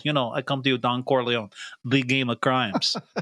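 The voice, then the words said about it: Mock mobster accent. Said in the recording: “He thinks he's got a good accent.”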